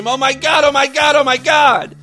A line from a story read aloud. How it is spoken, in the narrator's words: she started to scream